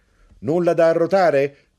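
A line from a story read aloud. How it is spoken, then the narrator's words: Shout. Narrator (Italian): gridò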